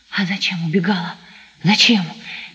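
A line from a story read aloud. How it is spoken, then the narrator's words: Feverish incoherent whisper. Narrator (Russian): горячим обжигающим шепотом бессвязно твердил Сашка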